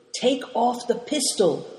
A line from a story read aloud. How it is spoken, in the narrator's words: whispered Moonlight